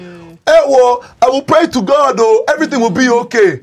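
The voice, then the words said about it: Put-on Nigerian accent. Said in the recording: “Not the accent.”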